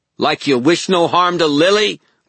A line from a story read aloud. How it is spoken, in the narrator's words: Meryl shouted